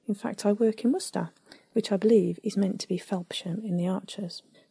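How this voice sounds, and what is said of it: Regional English Worcestershire accent. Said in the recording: “You can probably tell from my accent that I live not too far from Archer's country”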